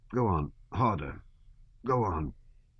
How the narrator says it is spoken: he muttered, slightly twitching and grunting

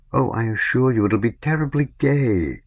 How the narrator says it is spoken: added tenderly to dissipate his gloom

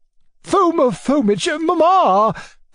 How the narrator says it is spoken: exclaimed my uncle in despair

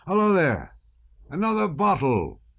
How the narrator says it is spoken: he shouted

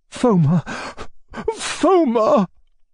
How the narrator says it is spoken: began, but his voice broke and he could not go on

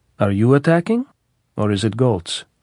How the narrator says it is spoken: asked smoothly

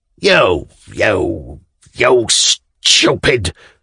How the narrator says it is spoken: muttered Semyon Ivanovitch

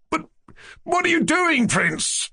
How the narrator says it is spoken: Yevgeny Pavlovich cried with horror

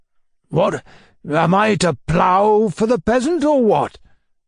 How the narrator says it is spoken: growled Bachev

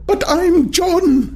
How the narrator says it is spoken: he shouted

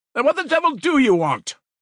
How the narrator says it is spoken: shouted Razumihin from above

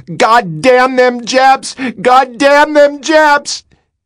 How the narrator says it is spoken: I was hollering

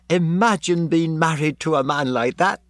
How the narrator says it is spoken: She cried

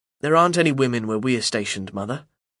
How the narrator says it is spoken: say as calmly as I can

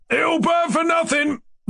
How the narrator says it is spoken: they were roaring on all sides

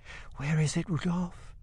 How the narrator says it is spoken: she whispers

